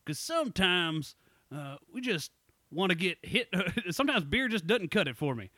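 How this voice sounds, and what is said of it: Put-on Southern accent. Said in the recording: “With a southern accent”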